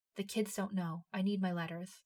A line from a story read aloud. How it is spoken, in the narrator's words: to whisper